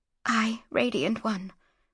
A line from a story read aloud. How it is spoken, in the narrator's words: whispered Mara